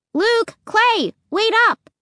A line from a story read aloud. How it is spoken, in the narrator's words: I shouted